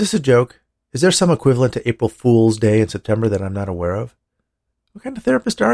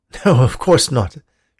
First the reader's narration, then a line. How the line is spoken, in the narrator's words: said with a laugh